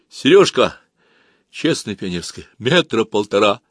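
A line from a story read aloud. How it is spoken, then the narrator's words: Frightened. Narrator (Russian): Женька также испуганно ответил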